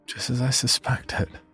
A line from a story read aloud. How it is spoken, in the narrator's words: I said under my breath